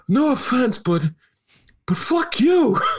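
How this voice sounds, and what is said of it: Imitates another person's voice. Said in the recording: “imitating Raylo”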